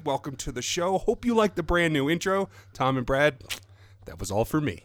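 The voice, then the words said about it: Non-English accent. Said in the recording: “non-English accent voice”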